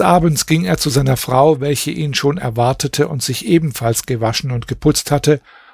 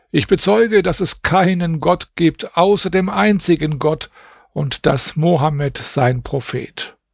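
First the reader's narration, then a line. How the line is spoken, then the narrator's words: Exclaimed. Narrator (German): rief aus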